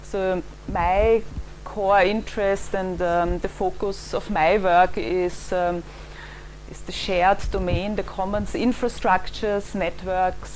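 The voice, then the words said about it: Viennese accent. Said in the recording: “where my accent is from ... I grew up in Vienna”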